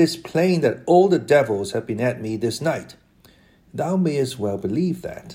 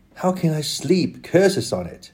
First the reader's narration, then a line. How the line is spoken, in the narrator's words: returned Sancho discontentedly and bitterly